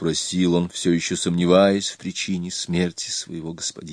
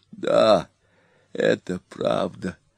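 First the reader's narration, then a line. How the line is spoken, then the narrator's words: Old man groaning. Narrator (Russian): простонал старик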